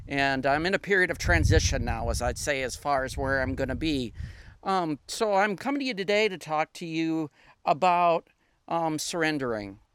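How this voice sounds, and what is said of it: Upper Midwest American accent. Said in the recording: “I am originally from the northern part of the United States, Minnesota, Wisconsin area. My accent kind of gives it away”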